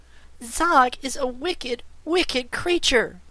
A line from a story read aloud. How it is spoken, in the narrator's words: exclaimed Trot